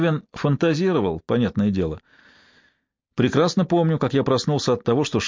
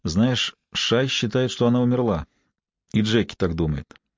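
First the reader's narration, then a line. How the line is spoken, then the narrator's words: Quiet. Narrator (Russian): Кевин тихо сказал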